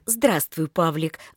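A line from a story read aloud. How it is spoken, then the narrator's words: Affectionate greeting. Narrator (Russian): ласково поздоровалась Рита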